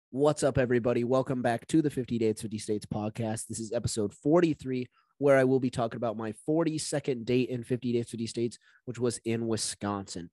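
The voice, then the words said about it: Raspy, partly lost voice. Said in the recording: “My voice is a little gone. It's been getting better, which is good, but it's still not fully there... my voice won't be my normal, like, energetic, lively self... It'll be a little raspy.”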